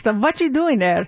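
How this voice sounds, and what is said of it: Playful imitation of Hungarian accent. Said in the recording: “playfully mock my mom, who's Hungarian, and she has a strong Hungarian accent ... That's how she sounded.”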